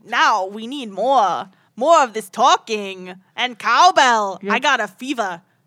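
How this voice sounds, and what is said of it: Imitates another person's voice. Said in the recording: “terrible Christopher Walken impressions... What accent are you doing?... this accent is so.”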